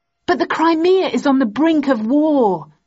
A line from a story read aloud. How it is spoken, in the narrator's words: exclaimed angrily